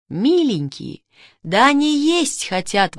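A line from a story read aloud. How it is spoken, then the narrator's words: Excited exclamation. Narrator (Russian): воскликнул Мишка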